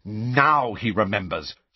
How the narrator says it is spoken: snarled Angelina

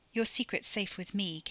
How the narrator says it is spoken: Katie said

